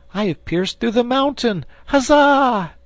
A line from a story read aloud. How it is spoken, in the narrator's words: at the shout